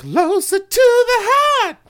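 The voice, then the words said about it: Strained falsetto singing. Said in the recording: “we got to work on that falsetto”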